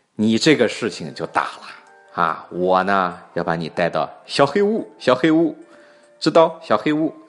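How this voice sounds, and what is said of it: Thai-accented Chinese impression. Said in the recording (Chinese): “这个泰国人说话就这口音。”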